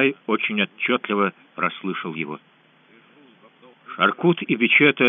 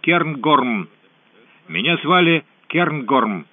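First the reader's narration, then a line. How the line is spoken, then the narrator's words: Shouted into ear. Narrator (Russian): невольник, прозванный должником, прокричав в ухо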